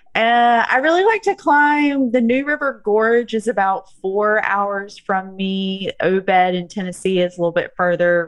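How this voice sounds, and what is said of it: Southern United States accent. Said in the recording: “If you can't tell from my accent, I'm in the southern United States.”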